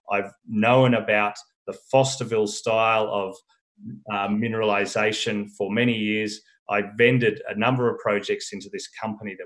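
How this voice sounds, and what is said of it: Australian accent. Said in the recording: “I know Australia very well. I've got afflicted with this accent.”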